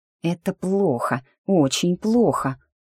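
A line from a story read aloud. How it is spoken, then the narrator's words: Muttered. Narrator (Russian): пробормотала я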